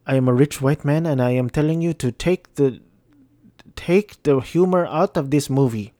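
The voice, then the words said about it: Odd put-on accent, Filipino-sounding. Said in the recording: “giving white man Kevin Feige an accent ... I honestly don't know what accent that was. It kind of sounded Filipino at the end.”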